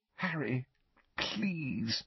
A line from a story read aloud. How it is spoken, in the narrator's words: Hermione pleaded weakly